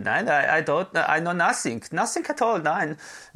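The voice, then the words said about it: Camp put-on Austrian accent. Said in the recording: “my Austrian accent is really camp ... It's very good. ... it's terrible.”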